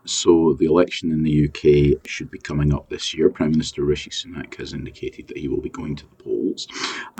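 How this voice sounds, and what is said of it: British accent. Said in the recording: “the one that I'm most interested in myself, as you can probably tell given my accent, is the British election”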